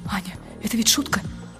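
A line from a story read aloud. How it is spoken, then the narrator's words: Whispering. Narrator (Russian): говорит шепотом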